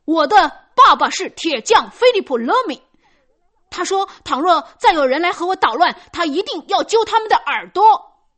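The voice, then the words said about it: Loud, ringing child's voice. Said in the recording (Chinese): “脸色灰白而嘴唇发抖的，用嘹亮的声音说”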